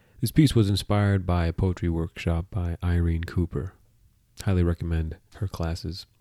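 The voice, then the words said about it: Stuffy, congested voice. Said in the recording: “Excuse my voice this week as I've been getting over a head cold”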